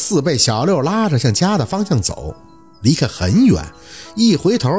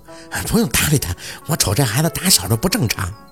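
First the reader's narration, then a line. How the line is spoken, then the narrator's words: Puzzled women muttering. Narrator (Chinese): 他旁边那几个老娘们满脸的莫名其妙，摇头着嘟囔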